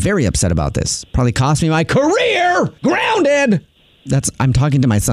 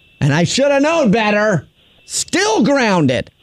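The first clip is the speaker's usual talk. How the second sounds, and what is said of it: Yelling, raised voice. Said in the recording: “Who are you yelling at? ... raised my voice”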